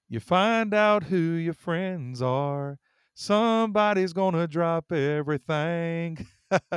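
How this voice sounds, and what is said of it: Sung imitation of a country singer. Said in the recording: “I'm going to do my best impersonation ... he sang these words”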